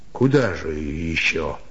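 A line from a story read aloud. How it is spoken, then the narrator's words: Sigh. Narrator (Russian): вздохнул Степан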